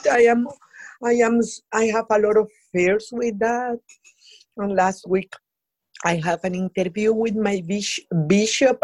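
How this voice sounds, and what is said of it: Latin American accent. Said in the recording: “my Latin accent ... your Latin accent is beautiful. It's absolutely beautiful.”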